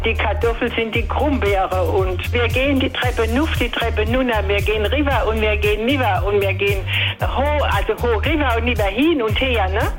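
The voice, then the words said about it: Palatinate German dialect. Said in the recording (German): “die auch selbst gerne Mundart spricht ... Der Pfälzer Dialekt, den spreche ich schon seit ich Kind bin”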